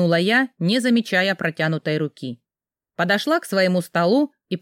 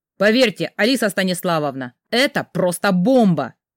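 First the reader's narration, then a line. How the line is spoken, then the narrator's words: Excited exclamation. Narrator (Russian): воскликнул спецкор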